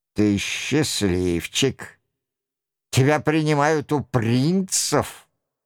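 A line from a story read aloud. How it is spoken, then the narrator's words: Bitter muttering sigh. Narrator (Russian): бормочет Роншероль со вздохом озлобления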